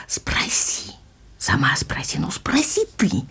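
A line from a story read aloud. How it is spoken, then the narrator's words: Heated whispering, girl and mother. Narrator (Russian): мы слышали горячий шепот ее и мамы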